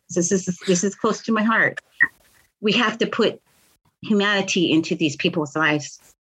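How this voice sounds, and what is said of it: Choked up, emotional voice. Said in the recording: “I'm getting a little choked up here”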